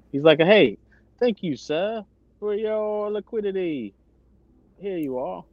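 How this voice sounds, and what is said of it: Put-on British accent. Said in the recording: “with no British accent”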